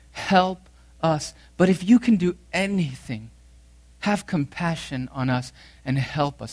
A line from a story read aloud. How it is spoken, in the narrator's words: A father who was pleading on behalf of his son, and he said to Jesus